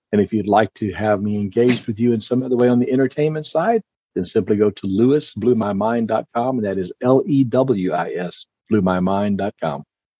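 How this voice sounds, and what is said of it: Announcer-style radio voice. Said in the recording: “that was a great soundbite ... And it was done in a radio voice.”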